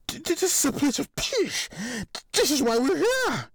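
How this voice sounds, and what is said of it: Shaky, trembling voice. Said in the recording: “Moritz continued in a shaky voice.”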